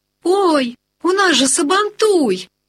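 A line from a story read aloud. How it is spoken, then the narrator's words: Joyful exclamation. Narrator (Russian): радостно вскрикивает Степан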